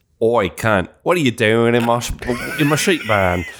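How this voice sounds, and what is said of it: Attempted Australian accent. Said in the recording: “I can't do an Australian accent.”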